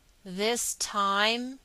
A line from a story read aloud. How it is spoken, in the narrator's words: he spoke aloud and through his teeth